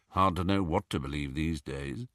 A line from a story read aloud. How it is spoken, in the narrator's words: muttered Dirk